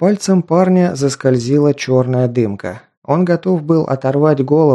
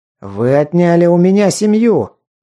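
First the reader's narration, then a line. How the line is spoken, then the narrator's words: Sudden shout. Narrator (Russian): внезапно закричал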